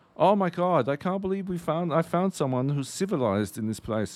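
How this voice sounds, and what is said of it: Put-on German accent. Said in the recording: “He was like fucking German, which is why I'm doing the accent.”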